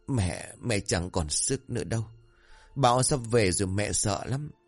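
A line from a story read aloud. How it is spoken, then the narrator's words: Trembling, tearful old woman. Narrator (Vietnamese): Bà cụ Hầu run rẩy nước mắt ứa ra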